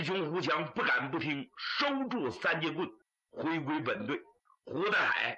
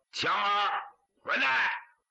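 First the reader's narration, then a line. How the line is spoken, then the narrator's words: Shouting. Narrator (Chinese): 喊了一声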